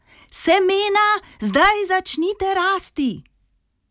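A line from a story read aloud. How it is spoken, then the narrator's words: Full-voiced shout. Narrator (Slovenian): Regica je na ves glas zakričala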